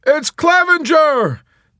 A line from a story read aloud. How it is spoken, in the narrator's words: they shouted